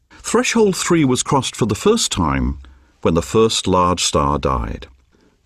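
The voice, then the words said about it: British accent. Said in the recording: “he's got a British accent”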